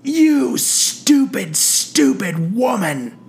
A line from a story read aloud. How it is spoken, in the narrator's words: he bellowed